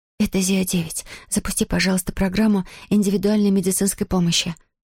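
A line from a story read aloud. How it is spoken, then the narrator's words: Whispered. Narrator (Russian): прошептала она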